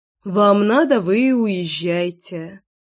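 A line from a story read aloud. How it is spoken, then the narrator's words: Grumbling. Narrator (Russian): Проворчала я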